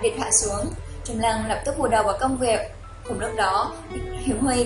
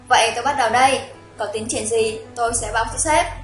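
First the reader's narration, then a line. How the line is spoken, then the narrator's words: Smiling. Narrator (Vietnamese): Trung Lăng mỉm cười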